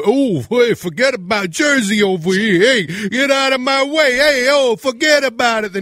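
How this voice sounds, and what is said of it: Over-the-top New Jersey accent. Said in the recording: “over-the-top accents ... the Jersey accent ... It's a little much”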